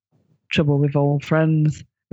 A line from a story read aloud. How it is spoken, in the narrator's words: responded the Doctor wearily